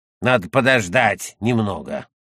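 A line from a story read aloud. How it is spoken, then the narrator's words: Old woman grumbling. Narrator (Russian): Старая работница Христина проворчала в ответ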